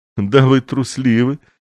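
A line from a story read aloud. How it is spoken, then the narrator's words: Laughing. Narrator (Russian): засмеялась она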